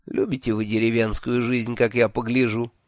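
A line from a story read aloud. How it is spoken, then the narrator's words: Snide remark. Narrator (Russian): ехидно заметил я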